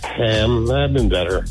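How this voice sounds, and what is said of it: Sad, downcast voice. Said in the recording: “You sound so sad.”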